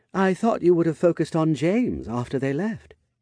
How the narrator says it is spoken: she said with a faint chuckle

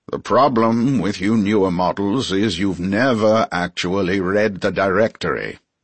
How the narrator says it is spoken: grumbled

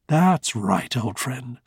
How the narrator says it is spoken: said Rudy soothingly

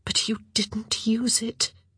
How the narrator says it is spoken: she whispered

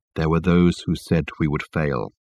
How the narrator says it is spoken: continued Michael, in his low tone that carried clearly under the boisterous noise that filled the carriage

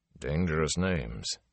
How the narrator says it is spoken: Tom muttered

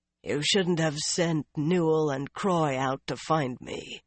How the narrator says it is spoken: the unseen rider called in a rough voice

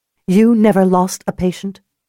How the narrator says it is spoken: She said sharply

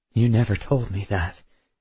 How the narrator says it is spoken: I said quietly

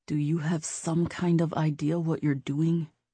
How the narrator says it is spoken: Nate asked Stevie quietly

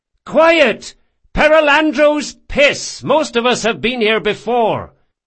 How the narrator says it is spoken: Lieutenant Delmastro hollered

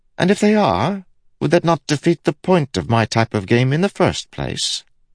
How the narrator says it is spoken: Kaladin sighed

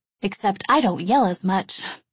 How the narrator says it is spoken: she would say, laughing

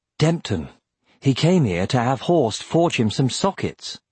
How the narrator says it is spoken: said Roran

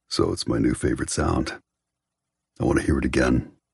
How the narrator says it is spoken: says gruffly

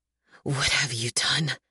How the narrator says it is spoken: His voice is low, but rises in a ragged, wordless cry before turning to a blood-curdling roar

